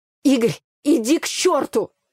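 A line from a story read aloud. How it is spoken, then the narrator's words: Angry, shaken blurt. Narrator (Russian): Зло выпалила я, пытаясь унять дрожь в руках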